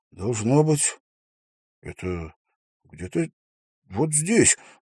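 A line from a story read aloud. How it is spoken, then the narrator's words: Muttering. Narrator (Russian): пробормотал он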